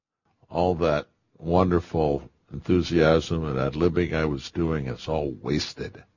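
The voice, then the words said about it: Flat monotone delivery. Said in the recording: “in my best monotone”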